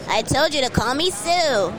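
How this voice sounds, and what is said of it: Anime character voice of Tsuyu Asui. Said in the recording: “she just did the voice. You heard? She just did the voice. Do the voice again.”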